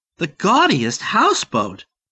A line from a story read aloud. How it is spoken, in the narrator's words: Barbie exclaimed